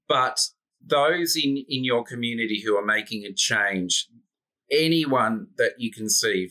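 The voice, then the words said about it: Australian accent. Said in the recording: “It's my Australian accent.”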